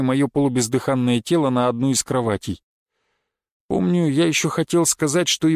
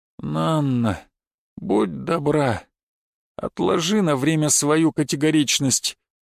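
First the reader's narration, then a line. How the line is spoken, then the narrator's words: Weak pleading voice. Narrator (Russian): слабым голосом попросил я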